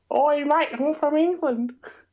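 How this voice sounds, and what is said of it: Failed English accent attempt. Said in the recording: “I went to go for English, but I just went higher on my accent. ... That didn't indicate an English accent.”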